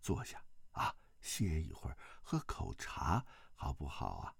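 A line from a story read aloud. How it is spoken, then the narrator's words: Gentle. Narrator (Chinese): 萧峰柔声道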